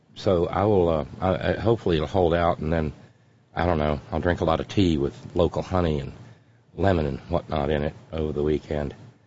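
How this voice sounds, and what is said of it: Scratchy, congested voice. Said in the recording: “sinuses, what, and I'm real scratchy, and my voice is kind of ugh.”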